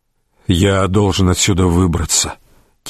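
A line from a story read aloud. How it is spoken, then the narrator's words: Quiet. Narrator (Russian): тихо проговорил Рейнован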